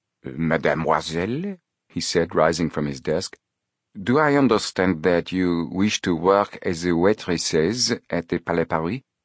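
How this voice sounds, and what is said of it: French-accented male character voice. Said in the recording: “The manager spoke with a French accent.”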